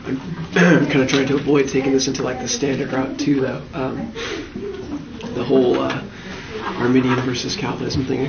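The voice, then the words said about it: Hoarse, fading voice from illness. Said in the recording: “I'm sick most of this week. ... So I'm kind of losing my voice.”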